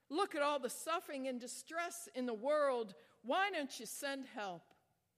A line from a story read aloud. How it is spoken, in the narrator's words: cried out